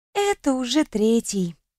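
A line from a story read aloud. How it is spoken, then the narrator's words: Sigh. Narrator (Russian): вздохнула Кьяра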